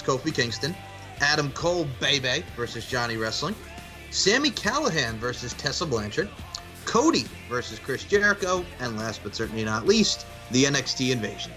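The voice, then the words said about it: Polished broadcaster-style radio voice. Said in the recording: “he has a television radio voice.”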